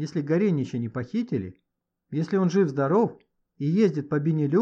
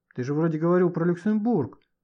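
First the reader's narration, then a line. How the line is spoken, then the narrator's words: Uncertain reminder. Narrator (Russian): неуверенно напомнил Шмаков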